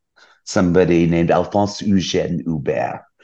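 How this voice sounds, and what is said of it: Put-on French accent. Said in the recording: “in my best sort of French accent”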